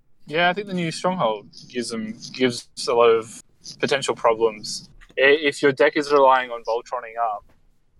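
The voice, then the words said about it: Serious, businesslike tone. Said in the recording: “notice how I switched into my serious voice”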